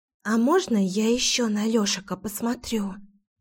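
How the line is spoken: Loud whisper. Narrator (Russian): Громким шепотом уточнила Кира

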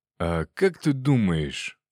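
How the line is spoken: Mysterious tone. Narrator (Russian): загадочным тоном произнес он

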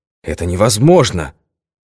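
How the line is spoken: Exclamation. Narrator (Russian): воскликнул он

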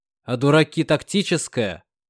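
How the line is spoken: Snorting scoff. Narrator (Russian): фыркнул Артем

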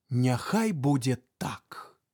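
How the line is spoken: Smiling answer. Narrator (Belarusian): Тха усміхнуўся і адказаў

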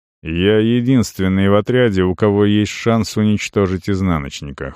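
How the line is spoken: Cold. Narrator (Russian): холодно сказал Арон

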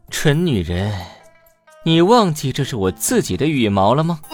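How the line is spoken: Cold. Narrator (Chinese): 冷冷地

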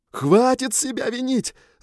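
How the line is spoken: Shouting back. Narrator (Russian): заорал я в ответ

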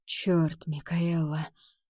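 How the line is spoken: Husky voice. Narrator (Russian): Хрипотца в голосе

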